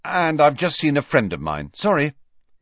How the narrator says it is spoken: said Harry firmly

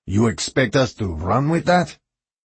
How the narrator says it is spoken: Garber grunted

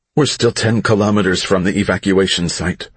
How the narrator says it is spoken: her mom said

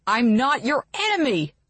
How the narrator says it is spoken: Chase yells through gritted teeth

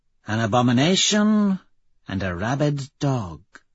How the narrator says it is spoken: she purrs

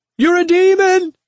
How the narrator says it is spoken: she cried

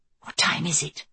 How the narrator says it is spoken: she whispered

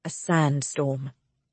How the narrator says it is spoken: Brightwell says quietly

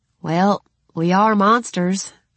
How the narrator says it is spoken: I said with a small sigh

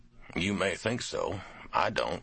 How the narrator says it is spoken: Call said

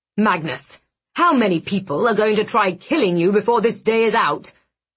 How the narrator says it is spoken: Blackwood snapped

